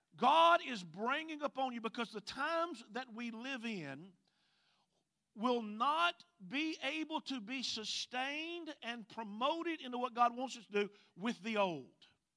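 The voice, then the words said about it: Southern Mississippi accent. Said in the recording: “You can tell I'm not originally from Hawaii, right? ... My accent goes way back into the deep woods of Mississippi”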